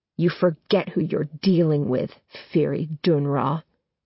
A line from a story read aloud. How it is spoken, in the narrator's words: Adam says through clenched teeth